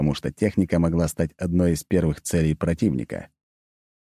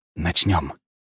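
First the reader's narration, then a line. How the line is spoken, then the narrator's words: Whispered. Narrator (Russian): прошептал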